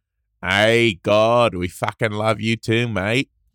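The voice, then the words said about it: Thick, over-the-top Australian accent. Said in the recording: “Okay, that's like way too over the top. ... that's it's a little bogan ... that one's really thick”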